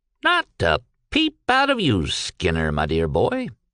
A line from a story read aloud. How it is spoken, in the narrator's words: he chirped amiably